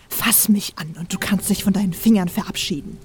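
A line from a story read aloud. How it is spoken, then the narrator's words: Dangerous hiss. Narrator (German): zischte sie gefährlich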